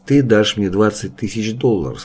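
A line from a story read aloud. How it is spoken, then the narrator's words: Plain. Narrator (Russian): сказал ему Мэнсон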